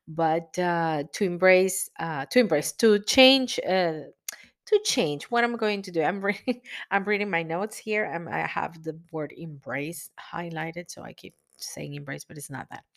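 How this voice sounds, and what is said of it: Strained, failing voice. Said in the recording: “my voice is almost—it's getting to the point that I cannot anymore ... This is probably my cold.”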